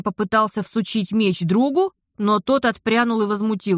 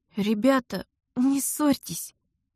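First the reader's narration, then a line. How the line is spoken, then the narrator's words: Pleading. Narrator (Russian): взмолилась я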